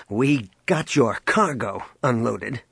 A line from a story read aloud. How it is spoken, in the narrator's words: he snapped